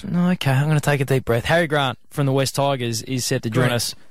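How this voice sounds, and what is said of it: South Australian accent. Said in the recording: “South Australian twang”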